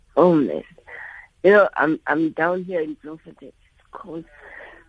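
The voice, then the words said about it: Hoarse, weakening sick voice. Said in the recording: “I think I'm coming down with a flu, so I'm coughing also ... I can hear my voice is almost losing me”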